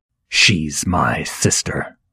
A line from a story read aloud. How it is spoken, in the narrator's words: he hissed